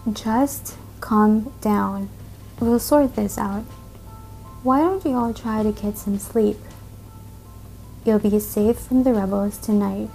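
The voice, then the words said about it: Mellow, calm voice. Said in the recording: “in a mellow voice”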